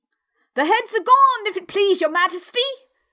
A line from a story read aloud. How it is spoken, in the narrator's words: the soldiers shouted in reply